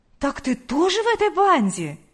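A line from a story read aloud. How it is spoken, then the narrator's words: Exclaiming. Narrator (Russian): воскликнула Лидия Гавриловна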